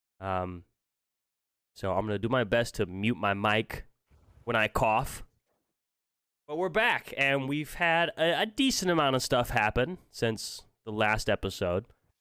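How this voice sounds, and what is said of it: Stuffy, congested sick voice. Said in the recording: “You could probably hear it in my voice. I am a little stuffy. ... I've been sick for like the past week.”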